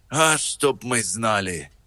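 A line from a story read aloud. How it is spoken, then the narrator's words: Sighing, dim-witted speaker. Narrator (Russian): вздохнул балбес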